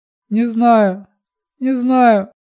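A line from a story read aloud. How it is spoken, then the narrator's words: Sobbing. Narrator (Russian): рыдала Миноли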